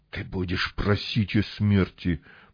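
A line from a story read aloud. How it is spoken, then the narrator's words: Beast hissing. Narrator (Russian): прошипел зверь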